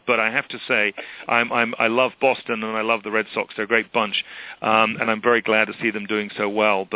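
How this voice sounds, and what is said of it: Non-American accent. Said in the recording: “as you can judge from my accent, baseball is not my sport”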